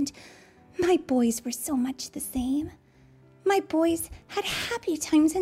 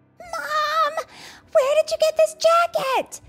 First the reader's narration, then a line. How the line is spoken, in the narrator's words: Vanessa screamed